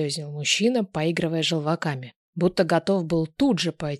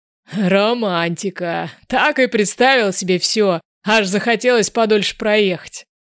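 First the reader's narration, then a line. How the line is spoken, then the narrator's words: Laughing. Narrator (Russian): смеялся любитель плацкартных вагонов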